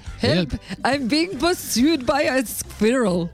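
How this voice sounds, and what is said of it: Bad put-on German accent. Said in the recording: “Can you do a German accent? ... That was terrible.”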